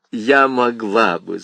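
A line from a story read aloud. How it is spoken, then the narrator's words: Laughing, female. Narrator (Russian): засмеялась она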